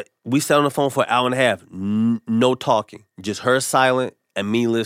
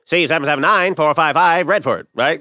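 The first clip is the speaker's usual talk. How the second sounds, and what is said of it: Attempted vaudeville accent. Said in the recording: “I'm supposed to be vaudeville ... Accent was vaudeville ... I got to work on my accents”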